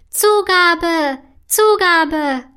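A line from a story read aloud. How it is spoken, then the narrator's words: Calling out. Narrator (German): ruft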